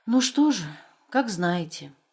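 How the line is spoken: Widow's sigh. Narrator (Russian): вздохнула вдова

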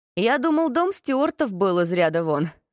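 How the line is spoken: Laughing. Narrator (Russian): засмеялся Феликс

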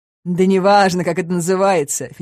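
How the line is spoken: Laughing. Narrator (Russian): федерал засмеялся

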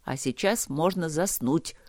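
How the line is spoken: Grumble. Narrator (Russian): проворчал Трот

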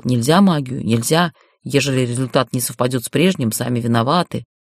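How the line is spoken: Grumbling healer. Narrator (Russian): целитель Зигфар ворчал

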